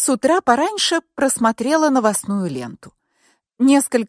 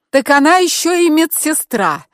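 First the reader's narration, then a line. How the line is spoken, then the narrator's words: Angry shout. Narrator (Russian): зло выкрикнула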